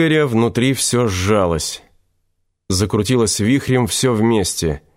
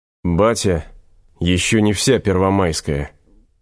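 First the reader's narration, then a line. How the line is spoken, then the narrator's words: Choked, muffled voice. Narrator (Russian): протолкнув ком в горле, глухо сказал Князев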